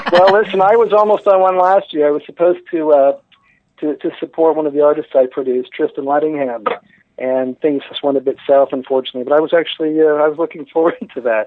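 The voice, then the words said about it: Canadian accent. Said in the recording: “I can actually hear your Canadian accent.”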